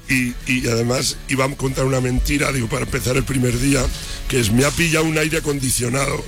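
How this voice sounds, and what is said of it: Hoarse, nearly lost voice. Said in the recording (Spanish): “esa voz, ¿cómo la tienes? ... estoy afónico”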